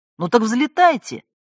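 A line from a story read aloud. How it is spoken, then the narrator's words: Irritated superior. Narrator (Russian): раздраженно отозвался кто-то из начальства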